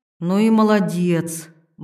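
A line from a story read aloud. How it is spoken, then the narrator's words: Grumbling. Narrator (Russian): буркнула Ирина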